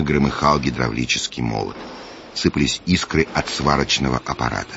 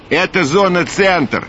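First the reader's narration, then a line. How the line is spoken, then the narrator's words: Loud over noise. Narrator (Russian): принц говорил громко, чтобы перекричать шум работ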